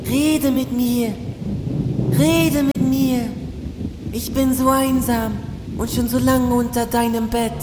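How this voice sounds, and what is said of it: Small whispering voice. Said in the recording (German): “Ein Stimmchen ... flüsterte unter dem Bett hervor”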